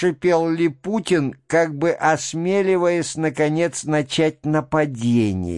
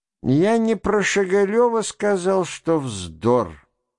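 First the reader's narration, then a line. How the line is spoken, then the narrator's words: Mumbled. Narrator (Russian): промямлил Верховенский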